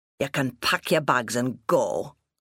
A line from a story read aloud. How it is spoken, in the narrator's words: growled